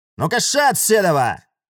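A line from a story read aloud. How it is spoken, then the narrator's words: Loud, sudden shout. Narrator (Russian): Это было так громко и так неожиданно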